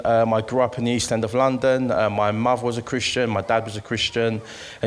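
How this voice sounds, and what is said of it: East London accent. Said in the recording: “I'm from East London, as you can hear from this accent.”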